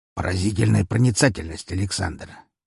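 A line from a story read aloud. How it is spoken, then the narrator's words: Grumbling. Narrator (Russian): проворчал он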